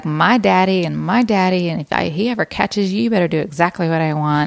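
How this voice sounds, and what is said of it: Put-on Southern belle accent. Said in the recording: “they would want that Southern belle and I would throw the Southern accent”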